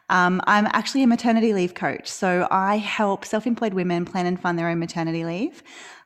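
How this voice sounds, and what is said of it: Australian accent. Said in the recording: “I live in Australia, which you can probably tell from my accent. It's a bit of a giveaway.”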